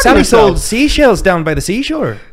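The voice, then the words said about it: Put-on Irish accent. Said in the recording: “Say it in an Irish accent. ... that's good. ... Irish is hard.”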